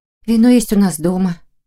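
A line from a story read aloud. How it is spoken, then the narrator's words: Gloomy. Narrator (Russian): мрачно отозвалась Саша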